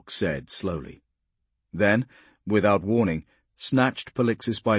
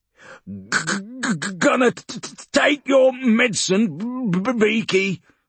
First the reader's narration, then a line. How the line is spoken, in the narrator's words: Urgork snarled